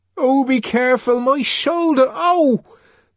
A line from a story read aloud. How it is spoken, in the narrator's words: Linda cried out